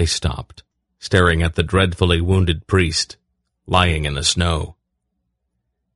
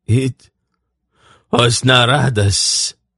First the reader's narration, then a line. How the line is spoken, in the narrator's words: the Grolem groaned